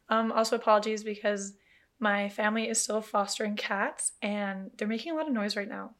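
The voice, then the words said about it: Hoarse, nearly lost voice. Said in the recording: “my voice is kind of gone”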